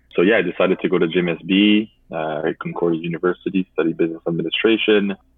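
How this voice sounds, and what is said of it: French accent in English. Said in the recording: “I come from a high school that is French speaking. I guess you can tell by my accent”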